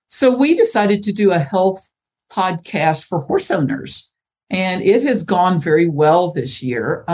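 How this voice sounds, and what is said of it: Southern American accent. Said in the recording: “quite the Southern accent that I can't get rid of”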